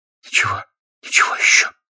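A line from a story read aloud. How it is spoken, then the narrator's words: Hollow muffled voice. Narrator (Russian): произнесла она глухим голосом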